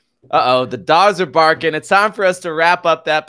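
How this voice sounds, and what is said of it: Usual voice. Nothing is said of it.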